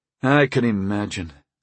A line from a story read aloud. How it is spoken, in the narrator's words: I sighed